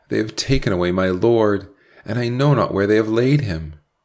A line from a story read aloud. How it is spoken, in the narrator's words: cried